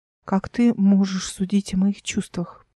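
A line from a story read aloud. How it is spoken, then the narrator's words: Whispered. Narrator (Russian): прошептала Мира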